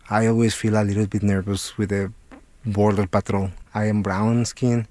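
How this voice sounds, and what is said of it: Thick Mexican accent. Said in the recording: “my accent is pretty thick, I am Mexican”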